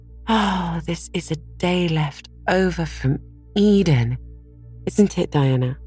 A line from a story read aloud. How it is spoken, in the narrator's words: Anne sighed for sheer happiness